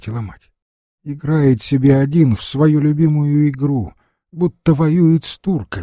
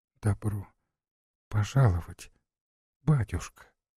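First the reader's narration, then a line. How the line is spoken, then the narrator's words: Barely audible murmur. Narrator (Russian): еле слышно пролепетала невестка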